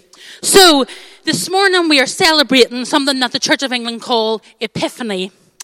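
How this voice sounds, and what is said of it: Strong Irish accent. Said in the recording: “my very strong accent ... home in Ireland ... my accent has got terribly much stronger”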